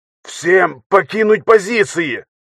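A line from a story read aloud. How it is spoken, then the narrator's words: Hoarse shout. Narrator (Russian): хрипло крикнул Матвеев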